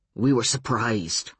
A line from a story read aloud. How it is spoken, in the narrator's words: Uncle Mike said